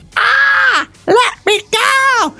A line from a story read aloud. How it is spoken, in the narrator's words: Krillin yelped